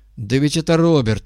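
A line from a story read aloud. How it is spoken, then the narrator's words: Shout from behind. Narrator (Russian): крикнули сзади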